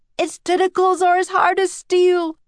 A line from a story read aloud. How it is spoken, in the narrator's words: shouted one of the sailors